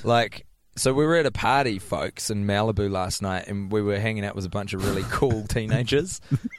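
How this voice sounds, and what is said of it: Thick New Zealand accent. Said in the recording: “my New Zealand accent ... both ... and I have quite thick Kiwi accents”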